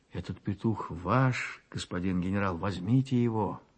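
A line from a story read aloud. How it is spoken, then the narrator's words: Timid. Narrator (Russian): Дионисио и Гуаран робко ответил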